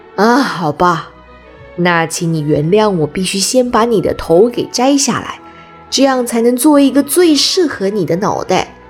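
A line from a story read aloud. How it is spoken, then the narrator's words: Sighing. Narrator (Chinese): 奥兹叹了一口气说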